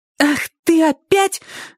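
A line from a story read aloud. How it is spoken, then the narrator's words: Shouted angrily. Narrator (Russian): закричала она с такой злостью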